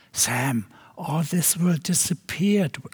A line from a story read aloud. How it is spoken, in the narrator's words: I whispered